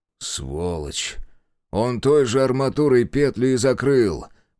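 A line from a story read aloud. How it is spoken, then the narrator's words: Despairing moan. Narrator (Russian): простонал в отчаянии знаток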